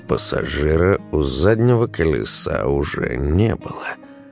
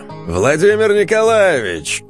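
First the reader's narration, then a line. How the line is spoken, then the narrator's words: Shouted. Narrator (Russian): Костя крикнул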